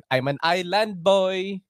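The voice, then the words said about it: Put-on Filipino accent. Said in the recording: “If I did it in a Filipino accent”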